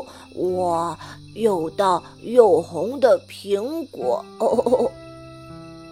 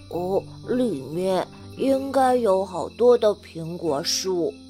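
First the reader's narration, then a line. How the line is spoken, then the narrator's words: Thirsty murmur. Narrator (Chinese): 抱抱有点口渴了，喃喃地说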